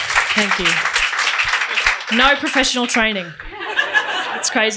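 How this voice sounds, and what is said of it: Usual voice. Nothing is said of it.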